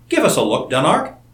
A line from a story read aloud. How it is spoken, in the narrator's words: begged Seton